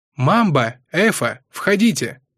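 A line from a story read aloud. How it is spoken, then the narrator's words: Loud call. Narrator (Russian): громко позвала Ласка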